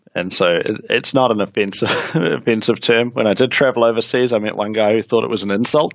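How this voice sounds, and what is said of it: New Zealand accent. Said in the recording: “I'm a Kiwi, hence the accent.”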